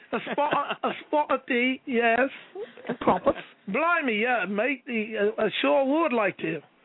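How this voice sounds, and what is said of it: Put-on British accent. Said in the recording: “Yes, I would like some tea with that accent”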